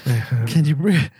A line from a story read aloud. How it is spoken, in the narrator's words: Still gasping